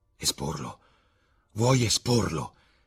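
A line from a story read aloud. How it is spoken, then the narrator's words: Panicked exclamation. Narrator (Italian): esclamò Dorian Gray, mentre uno strano senso di panico si impossessava di lui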